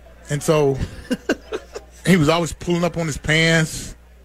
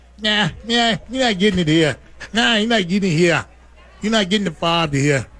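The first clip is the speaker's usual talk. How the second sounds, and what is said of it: Twangy New York accent impression. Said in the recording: “Frank had this New York twangy accent voice.”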